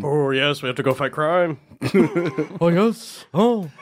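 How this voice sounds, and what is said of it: Impression of Robbie Goodwin. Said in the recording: “doing an impression of Robbie Goodwin”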